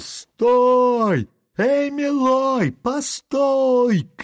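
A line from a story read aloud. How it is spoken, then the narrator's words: Two voices shouting. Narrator (Russian): кричали два голоса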